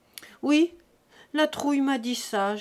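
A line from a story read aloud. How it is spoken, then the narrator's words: Humble moaning. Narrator (French): gémit Jésus-Christ, très humble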